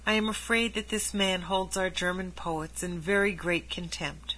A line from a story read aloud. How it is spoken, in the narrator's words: he said softly to Martin